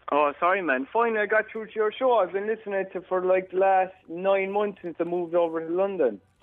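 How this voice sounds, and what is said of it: Pakistani accent. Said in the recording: “You can guess by my accent, obviously. ... Pakistan?”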